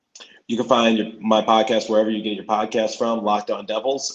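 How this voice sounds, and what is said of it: Hoarse, worn-out voice. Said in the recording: “my voice is a little hoarse. I did a lot of play-by-play over the weekend. And also, I was doing a lot of screaming at the basketball game. So my voice is kind of dead right now.”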